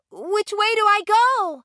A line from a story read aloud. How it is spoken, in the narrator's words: shouted Dorothy urgently